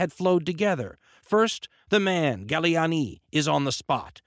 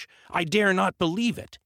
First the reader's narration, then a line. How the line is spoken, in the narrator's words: he exclaimed